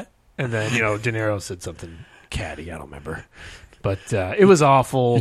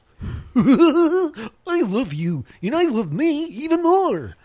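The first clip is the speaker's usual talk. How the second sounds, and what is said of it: Impression of Barney the Dinosaur. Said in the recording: “I did an impression of Barney the Dinosaur ... at least do the Barney voice?”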